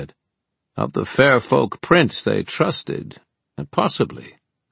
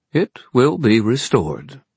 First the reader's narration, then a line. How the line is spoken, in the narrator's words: Dearborn said smoothly